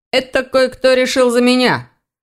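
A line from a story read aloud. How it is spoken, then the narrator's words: Grumbling. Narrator (Russian): проворчал он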